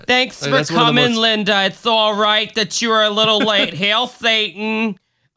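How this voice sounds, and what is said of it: Put-on Long Island accent. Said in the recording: “what's that accent? ... I'm from Long Island ... that accent is just hellish”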